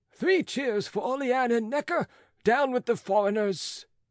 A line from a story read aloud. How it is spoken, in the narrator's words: howling